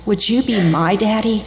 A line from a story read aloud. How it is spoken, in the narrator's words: wistfully asked